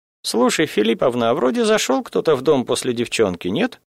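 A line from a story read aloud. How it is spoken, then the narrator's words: Uncertain, hesitant. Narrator (Russian): неуверенно вспомнила сотоварка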